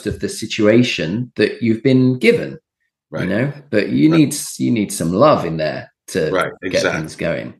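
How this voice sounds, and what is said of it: Boarding school accent. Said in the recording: “I'm hearing an accent from somewhere. ... I went to boarding school. So it's the accent of everyone else at the school ... we all like ... sounded the same by the end.”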